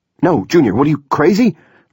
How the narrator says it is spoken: Rupe shouted

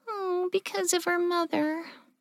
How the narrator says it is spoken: Clover said sadly

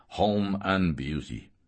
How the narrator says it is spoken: growled

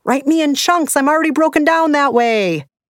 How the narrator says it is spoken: the book screamed

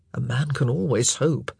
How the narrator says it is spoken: he muttered

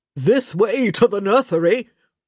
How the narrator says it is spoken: Gregory laughed

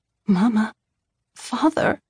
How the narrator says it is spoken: I croaked

